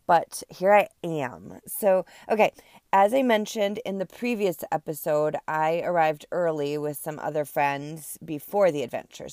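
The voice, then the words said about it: Sick-sounding voice. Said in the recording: “apologize for my voice. I'm still a little bit under the weather. I feel like this cold just won't go away.”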